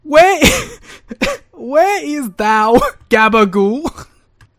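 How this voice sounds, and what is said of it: Deliberately terrible put-on accent. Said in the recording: “doing terrible accents? That's our thing.”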